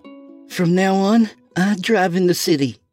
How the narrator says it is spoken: she said in a shaky voice

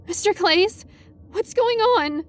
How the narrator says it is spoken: I asked, immediately embarrassed by how squeaky and terrified my voice came out

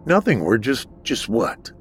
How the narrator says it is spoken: Eric muttered and stuttered, not wanting to upset the doctor anymore

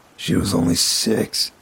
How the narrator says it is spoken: he muttered to himself

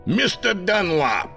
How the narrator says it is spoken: he bellowed

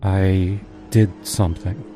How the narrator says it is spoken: she said slowly

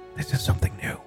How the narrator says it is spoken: whispered

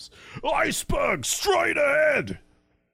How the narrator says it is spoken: a second man screams

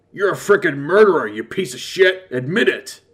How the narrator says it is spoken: said through gritted teeth

